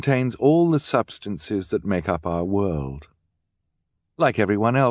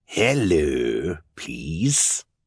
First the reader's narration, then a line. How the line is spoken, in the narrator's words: Count Olaf said in his raspy voice